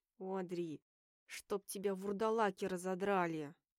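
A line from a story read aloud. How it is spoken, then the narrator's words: Growled through teeth. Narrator (Russian): рыкнул Уолтер сквозь зубы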